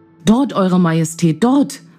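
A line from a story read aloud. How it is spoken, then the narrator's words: Calling out. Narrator (German): rief er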